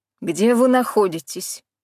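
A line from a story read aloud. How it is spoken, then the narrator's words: Sharp question. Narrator (Russian): спросил резко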